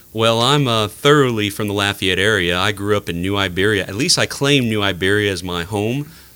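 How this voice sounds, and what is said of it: Smooth, buttery radio voice. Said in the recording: “apparently the radio voice ... I'm loving your buttery voice. It sounds wonderful.”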